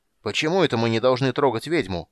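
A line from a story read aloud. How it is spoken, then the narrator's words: Shouted reply. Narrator (Russian): прокричал кто-то в ответ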